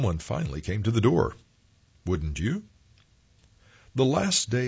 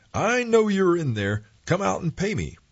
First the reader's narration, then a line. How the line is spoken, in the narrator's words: He yelled